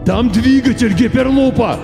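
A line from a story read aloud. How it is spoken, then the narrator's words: Shout. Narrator (Russian): крикнул мистер Пирсин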